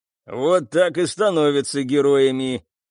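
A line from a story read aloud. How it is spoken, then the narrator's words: Cyborg's snorting smirk. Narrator (Russian): хмыкнул киборг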